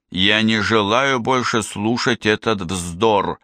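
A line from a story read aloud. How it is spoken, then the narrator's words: Plain. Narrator (Russian): сказал он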